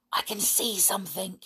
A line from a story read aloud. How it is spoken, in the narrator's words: he whispered